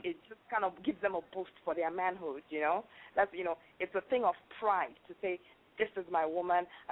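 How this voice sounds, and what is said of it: Nigerian accent. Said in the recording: “you have an accent as well. ... I'm from Nigeria.”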